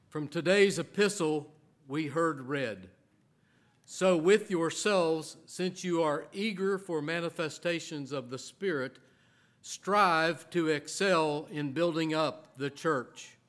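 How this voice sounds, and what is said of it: West Virginia hillbilly accent. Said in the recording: “my West Virginia hillbilly accent”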